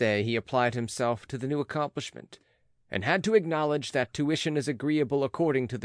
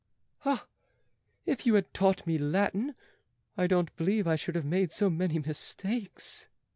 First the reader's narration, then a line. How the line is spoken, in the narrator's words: he sighed